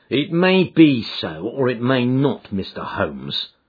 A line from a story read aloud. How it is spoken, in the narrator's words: said he